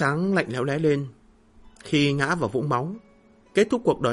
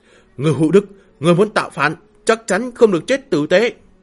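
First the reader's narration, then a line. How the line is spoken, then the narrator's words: Anguished scream. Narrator (Vietnamese): Trong tiếng kêu thê lương, Văn Trạch hét lên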